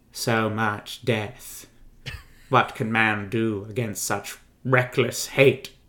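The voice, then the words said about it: Imitates a film character's voice. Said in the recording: “I'm going to try and do the voice, too. ... Is that King of Rohan?”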